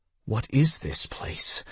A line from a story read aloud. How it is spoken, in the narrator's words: I whispered